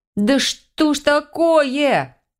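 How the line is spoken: Wailing. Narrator (Russian): взвыла я

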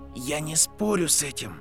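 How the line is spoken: Quiet. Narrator (Russian): тихо сказал Гарри

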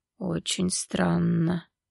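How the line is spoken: Quiet creaky voice. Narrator (Russian): тихо проговорил он скрипучим голосом

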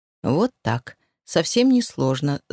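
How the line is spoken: Velvety remark. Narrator (Russian): заметил он бархатным тоном

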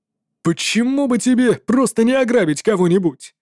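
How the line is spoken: Reluctant exclamation. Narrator (Russian): неохотно воскликнул запрещенная Ламелла

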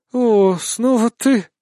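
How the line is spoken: Mumbling. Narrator (Russian): промямлила Вибисида

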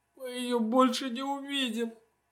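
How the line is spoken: Speaking through tears. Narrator (Russian): говорит одна сквозь слезы

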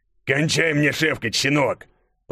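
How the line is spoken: Growling. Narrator (Russian): прорычал он

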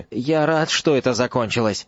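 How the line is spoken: Muttered. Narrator (Russian): пробормотал Невилл

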